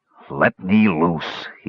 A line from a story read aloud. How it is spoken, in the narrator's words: he growled suddenly, his voice barely above a whisper